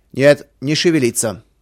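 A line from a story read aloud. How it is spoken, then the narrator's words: Menacing shout, horseman. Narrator (Russian): грозно прокричал один из всадников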